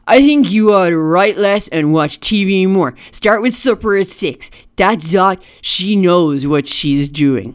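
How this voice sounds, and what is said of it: Imitates another person's voice. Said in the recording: “that's my Lyndon Johnson impression ... Flawless, flawless Lyndon B. Johnson right there”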